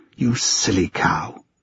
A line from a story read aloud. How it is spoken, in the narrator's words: she muttered under her breath